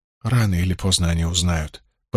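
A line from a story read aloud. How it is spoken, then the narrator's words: Muttering. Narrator (Russian): пробормотала Найниф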